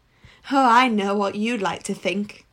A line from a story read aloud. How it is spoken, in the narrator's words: Corky chuckled